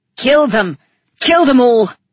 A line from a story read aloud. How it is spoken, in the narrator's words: Calyx yelled